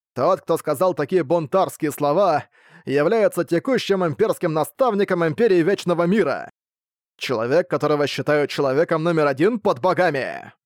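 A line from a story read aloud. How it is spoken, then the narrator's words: Awe-inspiring shout, blind man. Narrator (Russian): Со внушающим благоговение присутствием слепой крикнул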